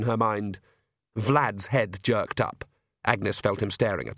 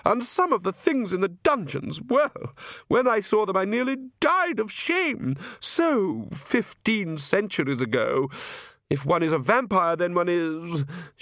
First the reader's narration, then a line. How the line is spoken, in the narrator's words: she gave a deprecating little laugh